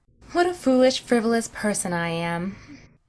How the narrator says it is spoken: she sighed

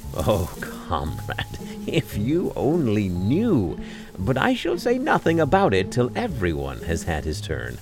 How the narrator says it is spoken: he answered gaily

